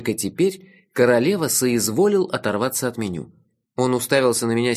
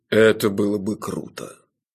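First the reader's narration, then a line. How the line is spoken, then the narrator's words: Well-trained bass voice. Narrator (Russian): сказал он прекрасно поставленным басом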